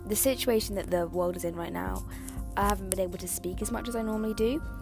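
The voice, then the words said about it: Very fast speech. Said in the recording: “I'm trying to speak as fast as I can”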